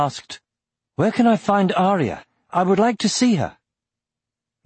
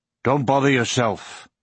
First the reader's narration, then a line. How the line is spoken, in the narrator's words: grunted Auric